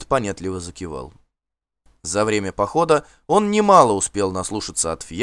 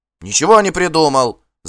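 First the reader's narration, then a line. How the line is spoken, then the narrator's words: Boy's heated shout. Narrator (Russian): запальчиво крикнул мальчишка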